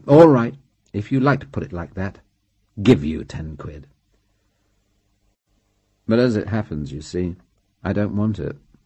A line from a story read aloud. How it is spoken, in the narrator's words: He said flatly